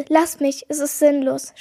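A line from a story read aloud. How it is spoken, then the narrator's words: Stammered. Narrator (German): stammelte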